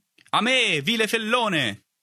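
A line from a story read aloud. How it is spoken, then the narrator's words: Shout from behind. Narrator (Italian): gridò una voce alle mie spalle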